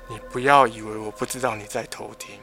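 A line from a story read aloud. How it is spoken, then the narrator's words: Sudden low, cold voice. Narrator (Chinese): 臭婊子很嗨的声音突然降得很低，然后冷冷的说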